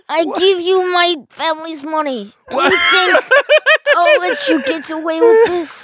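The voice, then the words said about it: Mob boss godfather voice. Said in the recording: “impression ... of Ben ... Why am I the godfather? ... He thinks you're a mob boss.”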